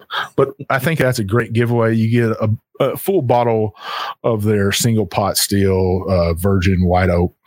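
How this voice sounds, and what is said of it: Texan Southern accent. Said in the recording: “that big old Texan in me wants to pronounce everything wrong. I got that uh that southern accent going on”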